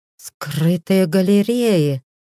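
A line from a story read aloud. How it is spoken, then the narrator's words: Breathed out. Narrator (Russian): выдохнул водник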